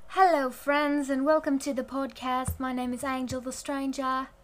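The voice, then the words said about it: Put-on British or Australian accent. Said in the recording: “I'm going to be doing the podcast with a British accent. I'm just kidding. I don't even know if that was a British accent or if that was an Australian accent ... maybe it was actually, like, a South African accent”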